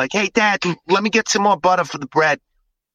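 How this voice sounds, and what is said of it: Put-on New York accent. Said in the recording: “my kids have a little bit of a New York accent”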